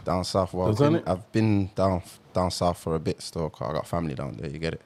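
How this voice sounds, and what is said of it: London-sounding southern English accent. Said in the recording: “To me, you sound like you're from down south ... No, he sounds like he's from London ... you putting this accent on, bro?”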